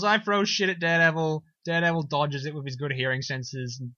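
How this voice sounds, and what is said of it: Usual voice. Nothing is said of it.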